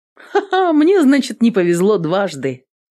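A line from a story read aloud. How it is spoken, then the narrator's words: Laughing. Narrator (Russian): засмеялась воительница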